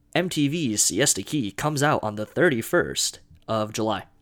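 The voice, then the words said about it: TV announcer voice. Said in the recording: “That's my best TV announcer voice.”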